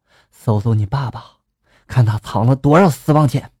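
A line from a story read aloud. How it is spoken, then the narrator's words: Whispered in ear. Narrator (Chinese): 妈妈附在了我的耳边，低声的就说了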